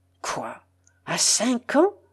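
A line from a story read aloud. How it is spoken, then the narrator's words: Terrified murmur. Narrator (French): murmure-t-il en proie à une véritable épouvante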